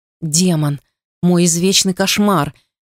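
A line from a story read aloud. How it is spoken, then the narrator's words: Rumbling whisper. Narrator (Russian): Его голос рокотал, когда он шептал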